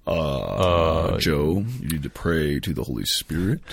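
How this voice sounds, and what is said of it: Impression of Father Hellstrom. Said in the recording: “Do it in your Father Hellstrom voice.”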